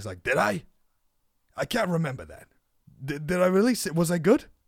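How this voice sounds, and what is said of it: Poor Danny DeVito impression. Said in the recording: “terrible Danny impression”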